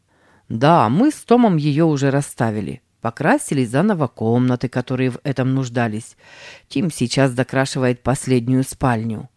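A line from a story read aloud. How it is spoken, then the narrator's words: Plain. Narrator (Russian): ответил мистер Харман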